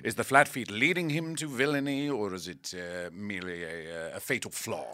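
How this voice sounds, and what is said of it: English-sounding accent. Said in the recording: “now with your accent ... Bill Shakespeare”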